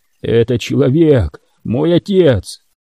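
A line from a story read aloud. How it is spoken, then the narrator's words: Hoarse speech. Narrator (Russian): хрипло произнес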